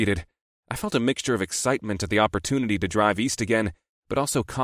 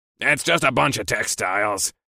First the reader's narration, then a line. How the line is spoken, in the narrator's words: Marsh snapped, like he was beyond annoyed by the simple question